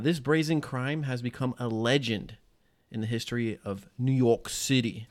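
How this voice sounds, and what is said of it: Poor put-on New York accent. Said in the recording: “my New York accent. Terrible, terrible. terrible.”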